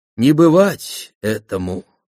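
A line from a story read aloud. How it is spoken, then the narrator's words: Sigh. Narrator (Russian): вздохнула Ма и Янг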